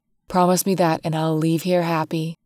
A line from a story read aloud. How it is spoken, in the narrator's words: I whisper to her